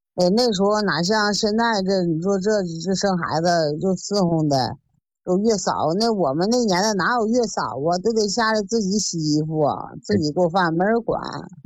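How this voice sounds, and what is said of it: Northern Chinese accent. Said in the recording (Chinese): “听你这口音还是北方的”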